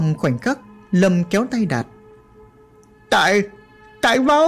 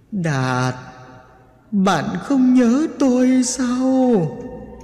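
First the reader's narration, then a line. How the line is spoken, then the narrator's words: Moaning. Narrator (Vietnamese): Nó không ngừng rên rỉ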